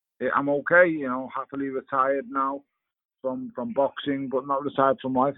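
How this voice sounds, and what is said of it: Speaks with a regional accent. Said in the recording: “every time someone gets on with an accent, I'm a little jealous because I just talk normal”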